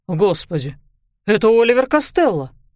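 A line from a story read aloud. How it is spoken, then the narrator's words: Exclamation. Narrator (Russian): воскликнул сэр Роланд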